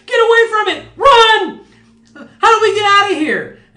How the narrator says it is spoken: a cacophony of screams and shouts

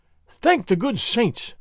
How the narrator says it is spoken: Don Carlos gasped

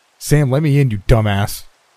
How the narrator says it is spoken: I cried into the cream-colored wood

